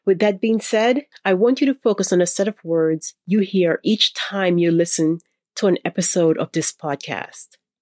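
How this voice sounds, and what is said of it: Voice sounds a little funny. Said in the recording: “It's allergy season in my part of the world, so if I sound a little funny, other than my usual accent”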